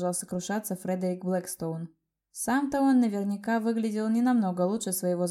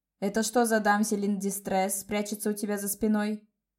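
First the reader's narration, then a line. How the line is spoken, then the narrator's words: Grumble. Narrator (Russian): проворчал господин Блэкстоун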